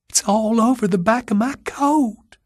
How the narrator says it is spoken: she whimpered

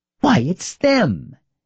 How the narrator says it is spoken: exclaimed Anna, and joyfully burst out laughing

